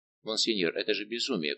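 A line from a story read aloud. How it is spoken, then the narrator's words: Whisper. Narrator (Russian): прошептал Гурвиль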